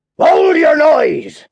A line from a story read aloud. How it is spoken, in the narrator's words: cried a terrible voice